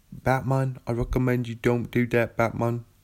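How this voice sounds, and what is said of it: Imitates another person's voice. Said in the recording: “Michael Caine. I'm Michael Caine. ... Michael Caine. ... when I'm trying to do an impression of someone ... say their name in their voice”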